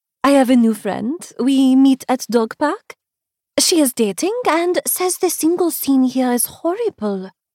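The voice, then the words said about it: Elegant foreign accent. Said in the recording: “she says in her elegant accent”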